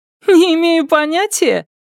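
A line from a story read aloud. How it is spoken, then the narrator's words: Snorting. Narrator (Russian): Нелидова фыркнула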